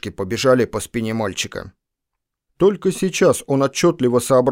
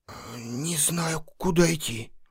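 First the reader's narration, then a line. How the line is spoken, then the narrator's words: Forced out with difficulty. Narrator (Russian): с трудом выдавил из себя Лан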